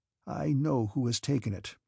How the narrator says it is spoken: repeated Rostov in an unsteady voice

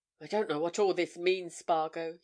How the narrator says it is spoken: he said almost wearily

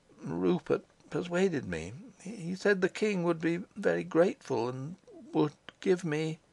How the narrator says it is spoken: His voice died away

